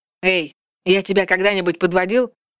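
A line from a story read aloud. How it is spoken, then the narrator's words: Suddenly loud. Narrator (Russian): Голос Вальдекриза прозвучал вдруг так громко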